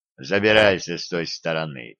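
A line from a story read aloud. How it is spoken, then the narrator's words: Low booming drone. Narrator (Russian): прогудел Глеб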